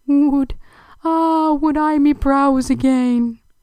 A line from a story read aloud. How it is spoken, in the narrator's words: he moaned in remorseful pain